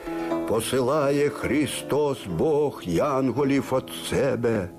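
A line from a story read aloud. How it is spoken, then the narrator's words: Solemn, clear ringing voice. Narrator (Russian): сказал торжественно, чистым и звонким голосом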